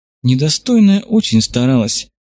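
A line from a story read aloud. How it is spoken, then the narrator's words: Sighing, woman. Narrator (Russian): вздохнула Чайганма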